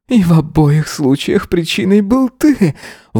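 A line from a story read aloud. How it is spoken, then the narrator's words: Groaning exhale. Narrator (Russian): выдохнул он, застонав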